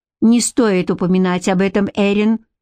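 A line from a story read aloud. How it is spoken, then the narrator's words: Sharp cutting-off. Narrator (Russian): резко оборвал Гарик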